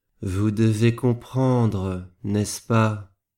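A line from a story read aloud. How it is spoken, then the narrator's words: Slow speech. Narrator (French): dit-il lentement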